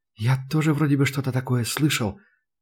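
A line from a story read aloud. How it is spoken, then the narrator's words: Uncertain mutter. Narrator (Russian): неуверенно пробормотал Ван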